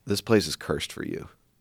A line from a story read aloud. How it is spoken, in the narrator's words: he quietly said